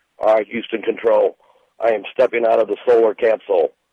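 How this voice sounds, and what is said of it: Astronaut character voice. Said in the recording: “impression of the first astronaut to land on the sun”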